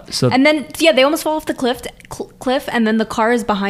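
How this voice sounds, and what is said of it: Usual voice. Nothing is said of it.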